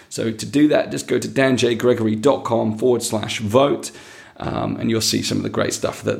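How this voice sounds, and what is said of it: Croaky, failing voice. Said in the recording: “my voice is going ... the slightly croakiness of this episode”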